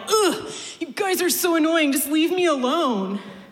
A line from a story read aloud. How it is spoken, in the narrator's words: he yelled